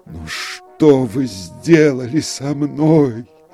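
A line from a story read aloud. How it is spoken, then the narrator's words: Moaning. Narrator (Russian): простонал он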